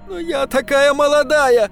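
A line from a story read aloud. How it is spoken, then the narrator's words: Girl sobbing. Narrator (Russian): продолжала рыдать девушка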